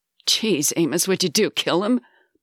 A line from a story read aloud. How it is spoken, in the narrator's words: barked CJ with a nervous laugh